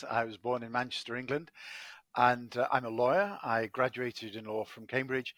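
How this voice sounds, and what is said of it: English accent. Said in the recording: “I'm uh, English, as my accent betrays.”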